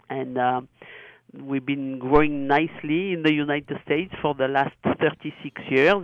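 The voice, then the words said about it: Charming non-native English accent. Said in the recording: “my accent is not getting any better ... No, it's quite charming. It's quite charming”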